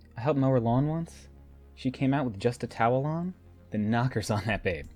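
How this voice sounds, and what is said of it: Thick American accent. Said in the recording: “His American accent is rather thick tonight.”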